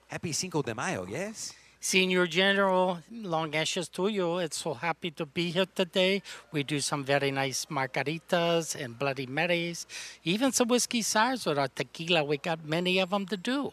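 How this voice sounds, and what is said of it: Put-on Mexican accent. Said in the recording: “let me do my Mexican accent with Frito Bandito”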